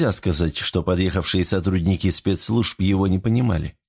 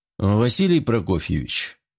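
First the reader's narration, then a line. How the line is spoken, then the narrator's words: Quiet tired voice. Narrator (Russian): обратился к нему Серов тихим и усталым голосом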